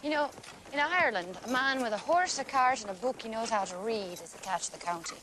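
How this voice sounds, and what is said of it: Unconvincing put-on Irish accent. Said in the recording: “sporting an Irish accent in that movie, and it's tough ... It's like a far and away accent.”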